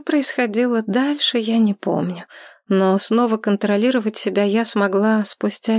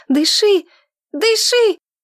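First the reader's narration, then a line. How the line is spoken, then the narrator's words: Shouting. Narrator (Russian): Алиса закричала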